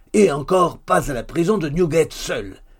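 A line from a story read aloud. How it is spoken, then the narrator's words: Shouting. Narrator (French): cria Hugues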